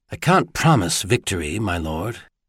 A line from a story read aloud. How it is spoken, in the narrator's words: he said quietly